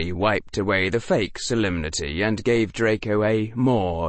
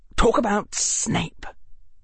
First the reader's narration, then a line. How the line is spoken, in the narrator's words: Draco hissed